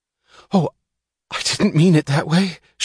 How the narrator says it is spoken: she gasped

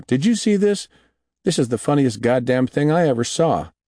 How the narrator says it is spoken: he called out

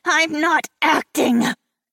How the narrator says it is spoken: she growled through gritted teeth

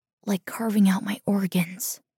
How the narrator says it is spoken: she whispers

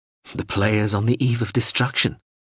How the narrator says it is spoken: Hawser laughed gently

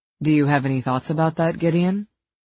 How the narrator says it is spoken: He kept his tone neutral

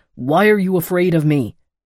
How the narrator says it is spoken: He barked

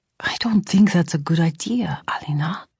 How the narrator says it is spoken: he would whisper back

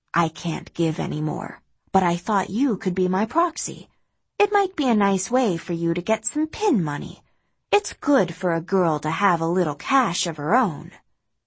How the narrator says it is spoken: Maureen says quietly

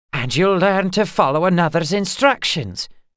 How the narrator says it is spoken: she snapped

